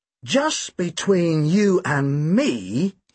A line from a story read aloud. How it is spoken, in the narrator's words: drawled